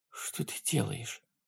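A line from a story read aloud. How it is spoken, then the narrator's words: Whisper. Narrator (Russian): прошептала она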